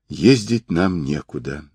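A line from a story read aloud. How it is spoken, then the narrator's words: Sigh. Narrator (Russian): вздохнула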